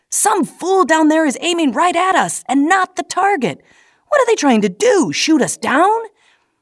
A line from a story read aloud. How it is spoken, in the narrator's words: Frantically